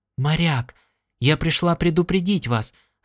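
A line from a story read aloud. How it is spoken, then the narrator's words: Quick female whisper. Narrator (Russian): раздался ее быстрый шепот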